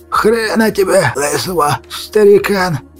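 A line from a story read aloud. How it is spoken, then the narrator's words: Hoarse wheeze. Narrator (Russian): Просипел Аварьяшка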